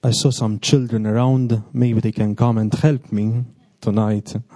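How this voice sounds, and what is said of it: Speaks English with an accent. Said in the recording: “correct my accent”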